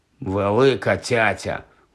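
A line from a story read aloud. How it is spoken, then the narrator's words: Grumble. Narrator (Ukrainian): буркнув Рон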